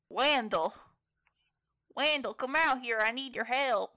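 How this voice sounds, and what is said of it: Character voice copying another's accent. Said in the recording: “I'm going to get on my Timothy voice again ... How come everybody's copying my accent?”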